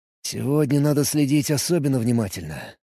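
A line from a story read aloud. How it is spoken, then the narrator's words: Mutter. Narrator (Russian): пробормотал я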